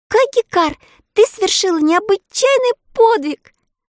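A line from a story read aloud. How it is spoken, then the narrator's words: Fervent exclamation. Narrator (Russian): горячо воскликнула Элли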